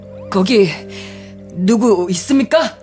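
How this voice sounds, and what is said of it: Trembling shouted voice. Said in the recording (Korean): “떨리는 목소리로 외쳤다”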